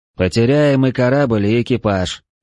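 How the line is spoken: Gloomy prediction. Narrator (Russian): мрачно предсказал я

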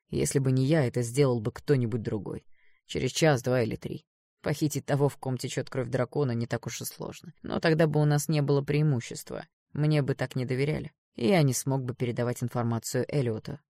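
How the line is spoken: Cold. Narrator (Russian): холодно проговорил Эштон

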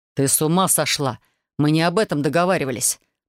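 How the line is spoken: Growling. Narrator (Russian): прорычал инквизитор

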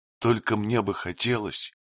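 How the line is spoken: Quiet speech. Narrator (Russian): тихо произнесла она

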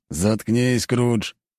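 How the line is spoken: Sharp rebuke. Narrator (Russian): осадил его командир

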